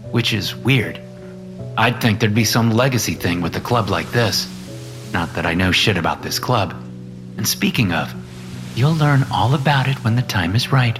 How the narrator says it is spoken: Angelina said

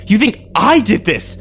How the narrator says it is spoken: I screamed at him

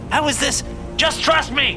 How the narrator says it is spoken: I shouted

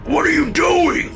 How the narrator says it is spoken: Dad screamed

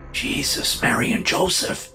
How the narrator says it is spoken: the man whispered

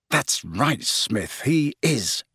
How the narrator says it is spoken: muttered Harry, grinning to himself

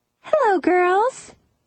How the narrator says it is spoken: she said cheerfully

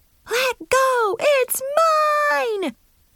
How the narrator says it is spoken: the four of us yelled

